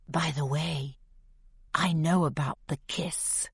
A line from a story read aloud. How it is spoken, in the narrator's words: whispers in my ear